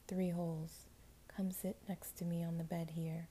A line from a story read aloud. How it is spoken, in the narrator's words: he said in an evil, kind voice